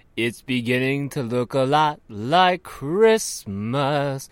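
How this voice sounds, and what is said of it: Poor sung imitation of another person's voice. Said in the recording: “sing this terrible Frank Sinatra impression”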